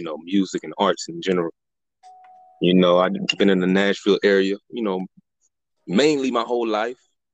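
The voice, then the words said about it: Northern US accent, not Southern. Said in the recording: “I hear the accent. The accent is definitely there. Definitely, yeah, not from the South ... you sound like a damn Yankee ... the accent is still there. You definitely ... do not sound like from down south ... You still got that up north feel”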